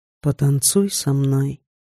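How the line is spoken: Quiet, right in ear. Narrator (Russian): тихо произнес Женя мне прямо на ухо

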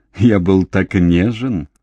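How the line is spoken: Laughing. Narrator (Russian): рассмеялся Джордж

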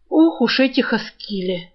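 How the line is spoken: Sigh. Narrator (Russian): вздохнул Крысолов

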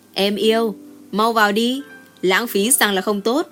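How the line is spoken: Laughing heartily. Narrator (Vietnamese): cười hà hà nói

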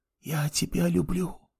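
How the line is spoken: Whisper. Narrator (Russian): прошептала она

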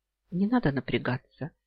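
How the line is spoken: Soft reply. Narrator (Russian): мягко ответил я

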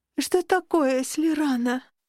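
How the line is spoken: Sleepy, yawning question. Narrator (Russian): демонстративно зевая, спросила я сонно

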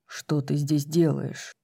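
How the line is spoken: Quiet question. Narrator (Russian): тихо спросил Хант

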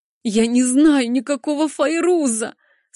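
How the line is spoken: Anguished moan. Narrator (Russian): С надрывом простонала я

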